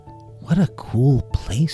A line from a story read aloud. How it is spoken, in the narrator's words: she whispered